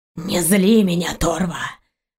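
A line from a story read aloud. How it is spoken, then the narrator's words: Through gritted teeth. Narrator (Russian): сквозь зубы процедил рянец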